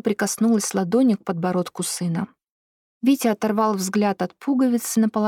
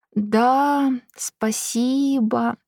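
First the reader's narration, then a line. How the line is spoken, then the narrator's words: Sluggish drawl. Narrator (Russian): вяло протянул Витя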